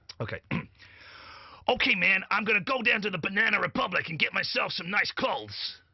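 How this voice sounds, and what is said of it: Put-on gruff American accent. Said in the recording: “Shall I do my American accent? ... Not bad. ... it sound a little put on. ... it doesn't sound like New York City. ... the enunciation is perfect ... you don't like the gruffness. ... It just sounds like a character.”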